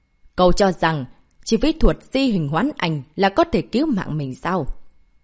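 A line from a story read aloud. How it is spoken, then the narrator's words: Cold. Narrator (Vietnamese): Lục trưởng lão lạnh lùng nói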